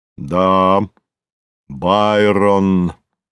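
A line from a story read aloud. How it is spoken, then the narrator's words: Deep, pleased voice. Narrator (Russian): пробасил Горький, довольный произведенным эффектом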